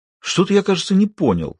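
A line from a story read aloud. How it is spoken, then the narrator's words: Indignant pronouncement. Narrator (Russian): возмущенно изрек Грир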